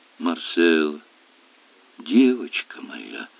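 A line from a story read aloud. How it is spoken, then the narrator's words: Tender murmur. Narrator (Russian): пробормотал он нежным голосом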